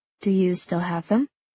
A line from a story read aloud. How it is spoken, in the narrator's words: Kathy asks quietly